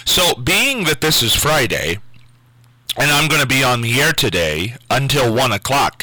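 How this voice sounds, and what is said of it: Hoarse, nearly lost voice. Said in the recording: “laryngitis ... my voice is totally shot”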